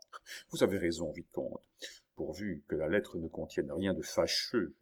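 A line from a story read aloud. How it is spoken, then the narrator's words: Murmured. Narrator (French): murmura le comte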